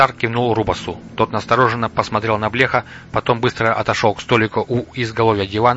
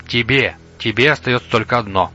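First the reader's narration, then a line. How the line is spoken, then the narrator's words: Soft, very quiet. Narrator (Russian): мягко, очень тихо проговорил Блех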